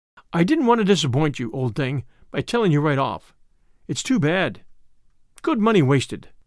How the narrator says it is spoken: he sighed

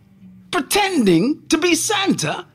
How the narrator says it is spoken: Santa said angrily

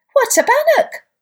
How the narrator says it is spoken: all the baby bunnies piped up

